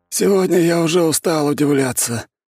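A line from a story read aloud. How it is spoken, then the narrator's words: Weary sigh. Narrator (Russian): вздохнул Бестужев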